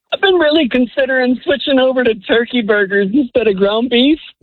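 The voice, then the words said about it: Tearful, on-the-verge-of-crying voice. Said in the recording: “I can tell you're on the verge of tears ... in my inner man voice”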